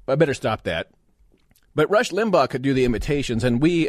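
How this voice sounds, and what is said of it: Usual voice. Nothing is said of it.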